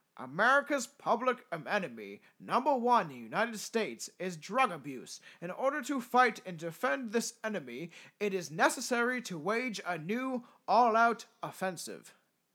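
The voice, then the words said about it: Odd American regional accent. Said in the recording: “That's not a Nixon accent, but I do some weird states accent.”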